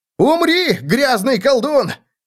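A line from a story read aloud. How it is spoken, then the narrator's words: Shout from behind. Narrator (Russian): выкрикнул кто-то за его спиной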